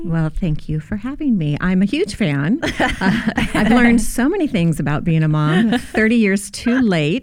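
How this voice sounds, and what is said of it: Smooth, pleasant radio voice. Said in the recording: “You have a really nice radio voice.”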